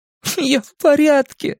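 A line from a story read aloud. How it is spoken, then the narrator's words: Loud, tearful. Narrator (Russian): громко ответил Стэн сквозь слезы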